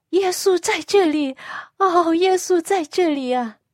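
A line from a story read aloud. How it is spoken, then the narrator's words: Loud, crying. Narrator (Chinese): 她大声一边哭一边讲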